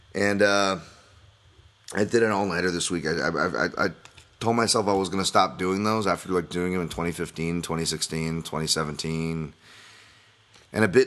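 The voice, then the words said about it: Strained, worn-out voice. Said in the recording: “My voice is, is going. It's been a long week.”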